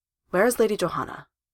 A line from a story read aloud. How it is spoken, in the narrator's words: he says stiffly